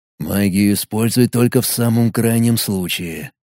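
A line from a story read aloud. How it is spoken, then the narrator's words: Whisper in ear. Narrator (Russian): прошептал я на ухо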